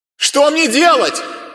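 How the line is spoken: Shouted. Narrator (Russian): Крикнула она

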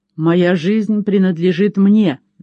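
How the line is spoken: Angry exclamation. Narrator (Russian): гневно воскликнул он

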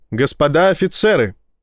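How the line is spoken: Shout. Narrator (Russian): крикнула Ива

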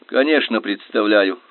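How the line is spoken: Irritated. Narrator (Russian): раздраженно сказал я

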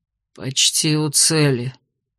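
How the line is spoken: Sleepy mutter. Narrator (Russian): пробормотал Дейрон сонно

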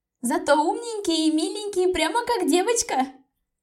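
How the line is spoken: Squeaky girlish voice. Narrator (Russian): пропищала ее подруга с гуманитарного

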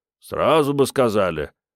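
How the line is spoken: Grumbling. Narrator (Russian): пробурчал ямщик

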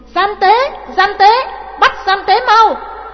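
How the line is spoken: Shouting. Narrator (Vietnamese): Trưng Nhị la lên

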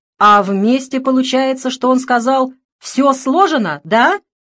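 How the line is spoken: Excited yell. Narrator (Russian): заорал он возбужденно

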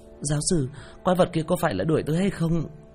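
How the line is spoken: Frightened young man asking. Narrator (Vietnamese): Thanh niên đeo mắt kính sợ hãi hỏi

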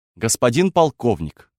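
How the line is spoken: Firm voice. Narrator (Russian): твердым голосом заговорила Алина

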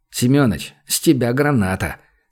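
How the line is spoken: Through gritted teeth, realizing tricked. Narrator (Russian): сквозь зубы процедил Владимир, который вдруг осознал, что его только что развели

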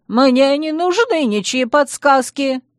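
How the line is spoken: Squeal. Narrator (Russian): взвизгнул Луи

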